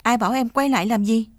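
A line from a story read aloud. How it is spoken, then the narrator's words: Shout. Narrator (Vietnamese): anh quát lên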